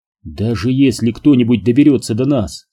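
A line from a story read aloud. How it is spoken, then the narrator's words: Plain. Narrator (Russian): сказал он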